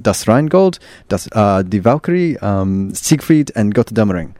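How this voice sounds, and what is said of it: Put-on German accent. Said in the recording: “That's the best German accent I can do.”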